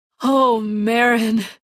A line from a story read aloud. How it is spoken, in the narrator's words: I sigh